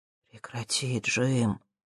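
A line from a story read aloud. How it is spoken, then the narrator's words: Quiet. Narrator (Russian): тихо произнес Боб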